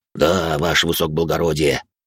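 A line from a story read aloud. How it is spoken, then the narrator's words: Grumbled mutter. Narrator (Russian): буркнул библиотекарь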